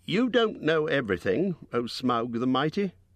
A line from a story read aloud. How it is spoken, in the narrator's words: said